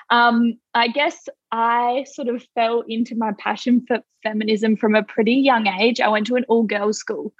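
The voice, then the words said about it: Australian accent. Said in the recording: “If you can't tell from my accent, I'm from Australia.”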